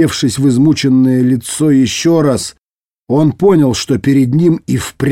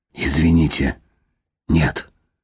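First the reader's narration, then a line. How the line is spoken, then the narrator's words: Muttered. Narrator (Russian): пробормотал Дитер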